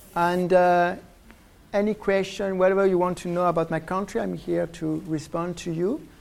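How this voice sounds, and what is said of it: French accent, strained fading voice. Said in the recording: “I'm losing my voice right now ... my French accent, because I grew up in France, so it's where I get this silly accent”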